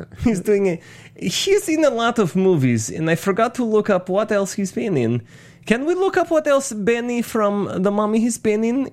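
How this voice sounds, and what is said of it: Benny's weaselly, effeminate Borat-like accent. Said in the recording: “he's doing a weasel accent ... It's almost Borat. It's between Benny and a little bit of Borat ... It's like a very effeminate Borat is what you're doing”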